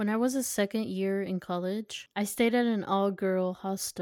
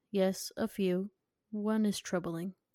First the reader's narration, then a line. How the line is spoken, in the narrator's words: she softly responded